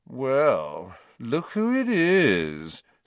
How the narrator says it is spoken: said Malfoy in his usual lazy drawl

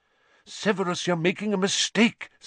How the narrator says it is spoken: said Lupin urgently

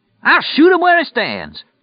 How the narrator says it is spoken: the old guy yelled

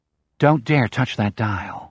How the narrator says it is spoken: Henry says

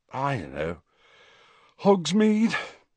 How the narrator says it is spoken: suggested Ron, yawning

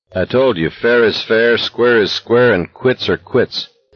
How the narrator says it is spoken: McVries said evenly

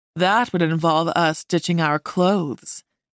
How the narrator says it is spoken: he said, his voice dipping in pitch suggestively

